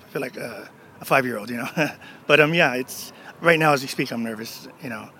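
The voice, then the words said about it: Choked-up, emotional voice. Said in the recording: “I'm getting all choked up.”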